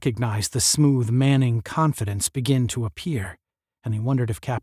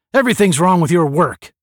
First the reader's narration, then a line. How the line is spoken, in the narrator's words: barked Strong